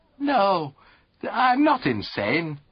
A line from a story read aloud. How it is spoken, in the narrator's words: retorted Lord Emsworth warmly